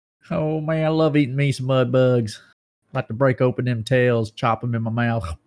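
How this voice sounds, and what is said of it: Exaggerated Southern twang. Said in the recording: “a little more southern twang to it ... I'll have a little bit more of a southern sound ... Southern twang ... When a little bit more twang.”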